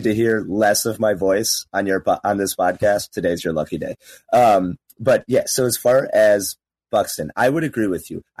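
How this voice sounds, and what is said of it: Hoarse, partly lost voice. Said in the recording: “I'm losing my voice a little bit. I had quite a weekend. I got after it a little bit too hard.”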